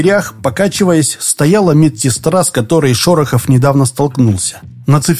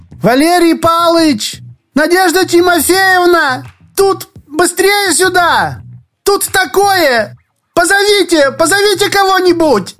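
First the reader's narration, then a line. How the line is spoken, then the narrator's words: Someone shouting. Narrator (Russian): кто-то крикнул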